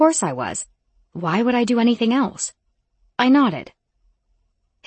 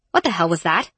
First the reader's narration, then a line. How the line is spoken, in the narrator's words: I snapped